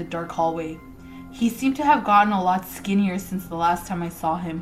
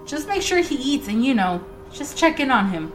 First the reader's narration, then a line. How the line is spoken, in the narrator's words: my mother pleaded